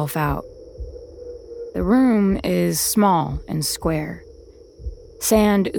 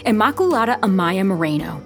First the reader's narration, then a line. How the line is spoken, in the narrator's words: the sister yelled